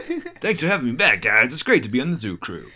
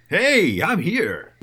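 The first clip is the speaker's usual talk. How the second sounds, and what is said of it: Obnoxious radio announcer voice. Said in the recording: “obnoxious radio announcer voice”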